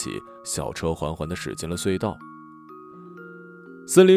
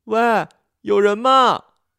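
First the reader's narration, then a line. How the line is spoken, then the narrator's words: Frightened. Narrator (Chinese): 那个女生被吓坏了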